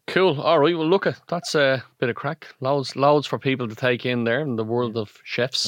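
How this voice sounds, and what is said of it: Irish Donegal accent. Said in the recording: “the Donegal twang”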